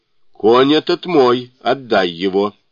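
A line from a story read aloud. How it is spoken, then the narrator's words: Loud, annoyed declaration. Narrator (Russian): плюнул с досадой и громко заявил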